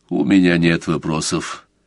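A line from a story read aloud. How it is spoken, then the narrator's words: Cold. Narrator (Russian): сказал Сварог холодно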